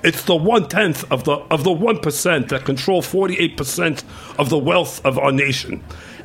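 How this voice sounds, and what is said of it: Imitates another person's voice. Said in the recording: “I'm gonna sound like Bernie Sanders now ... Bernie Sanders impersonator ... That's good. That's good.”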